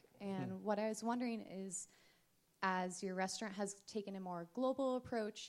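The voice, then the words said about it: American accent. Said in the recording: “Obviously from the accent, extremely American”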